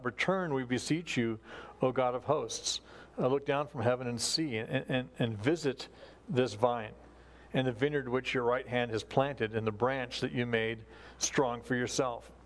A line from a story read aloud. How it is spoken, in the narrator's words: he cries out